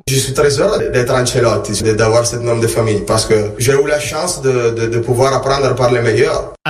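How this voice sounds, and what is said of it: Italian-accented French like Carlo Ancelotti. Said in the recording (French): “Costume impeccable, le grain de voix, l'accent, tout chez Davide ramène à Carlo.”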